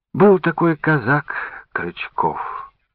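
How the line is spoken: Gentle reply. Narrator (Russian): мягко ответила она

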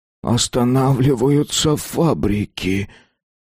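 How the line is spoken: Whispered. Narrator (Russian): прошептал

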